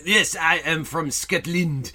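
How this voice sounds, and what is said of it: Put-on Scottish accent. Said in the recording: “Scottish accent ... it's very Scottish, clearly.”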